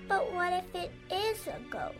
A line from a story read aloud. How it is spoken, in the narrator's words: Annie whimpered